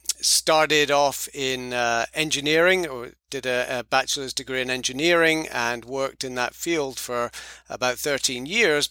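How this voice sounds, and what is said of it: British accent. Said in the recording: “as you can tell from my accent, I'm not from North Carolina or South Carolina or any Carolina. I'm from the United Kingdom. Moved here from Edinburgh”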